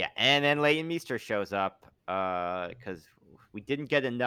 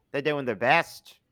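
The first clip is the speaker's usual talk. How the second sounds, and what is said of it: Odd put-on accent. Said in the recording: “Crikey, what was that accent?”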